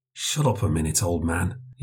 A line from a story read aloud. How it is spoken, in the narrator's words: he said in a low voice